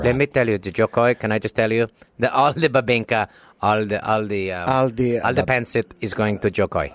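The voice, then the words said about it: Put-on accent, done convincingly. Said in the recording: “You have the perfect accent, man.”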